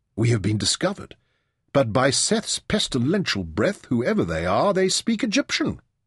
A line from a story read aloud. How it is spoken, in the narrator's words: Merrin exclaimed